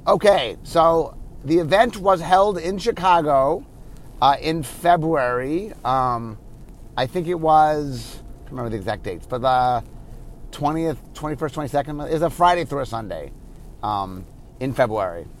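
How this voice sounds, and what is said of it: Slightly hoarse voice. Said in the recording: “you can tell I am a little bit hoarse.”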